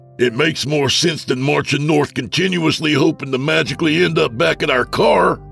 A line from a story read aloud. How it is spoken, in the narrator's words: Dave screamed back